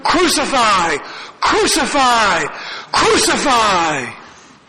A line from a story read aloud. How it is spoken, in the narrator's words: shouting